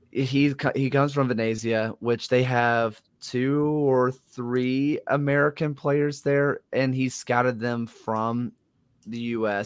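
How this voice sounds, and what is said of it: Thick Southern American accent. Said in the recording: “My thick Southern accent”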